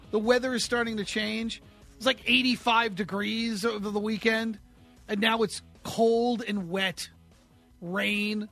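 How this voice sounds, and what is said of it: Raspy voice from a head cold. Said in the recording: “I got a little bit of a head cold, so please excuse my voice if it gets a little raspy”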